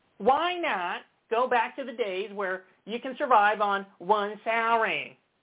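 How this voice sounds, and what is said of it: Impression of Mark Levin. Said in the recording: “this is how he speaks... same as my Ted Cruz impression”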